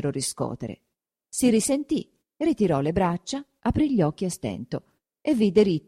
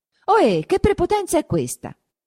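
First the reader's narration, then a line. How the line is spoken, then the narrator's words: Shouting. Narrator (Italian): gridò Renzo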